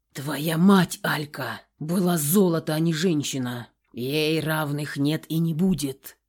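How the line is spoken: Hoarse rasp. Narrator (Russian): Прохрипел он

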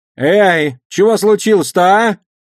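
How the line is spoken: Shout. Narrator (Russian): крикнула она

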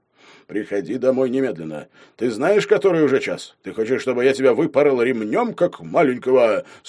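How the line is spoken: Stern fatherly roar. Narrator (Russian): Строго взревел отец

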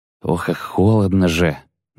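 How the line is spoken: Muttering. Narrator (Russian): бормотал

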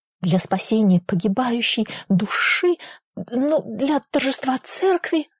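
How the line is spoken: Babbling Jesuit priest. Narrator (Russian): залепетал ксёнц-иезуит

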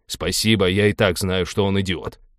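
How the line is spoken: Angry interruption. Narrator (Russian): сердито перебил Теодор

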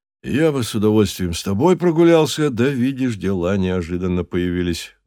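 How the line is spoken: Father's sigh. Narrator (Russian): вздохнул папа

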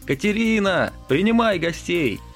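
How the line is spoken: Shouted. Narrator (Russian): Петрович постучал по стеклу и крикнул

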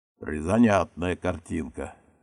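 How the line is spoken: Skeptical grunt. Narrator (Russian): хмыкнул

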